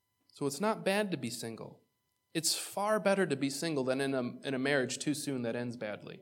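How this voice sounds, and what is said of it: Usual voice. Nothing is said of it.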